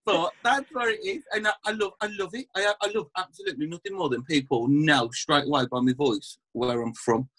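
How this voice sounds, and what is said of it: West Midlands Birmingham accent. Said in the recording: “you can probably tell from the accent I'm from like the West Midlands, Birmingham kind of area, black country”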